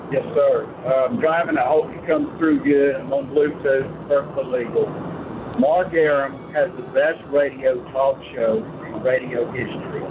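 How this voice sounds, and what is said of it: Deep Southern American accent. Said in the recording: “you've got a very different Southern accent ... I'm hearing that Oglethorpe County bass in that voice”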